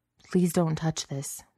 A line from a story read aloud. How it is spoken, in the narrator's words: the beast rasped